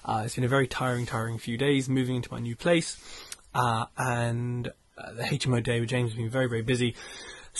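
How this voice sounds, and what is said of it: Hoarse, nearly lost voice. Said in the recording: “I've pretty much lost my voice, so I tried not to talk too much in this one.”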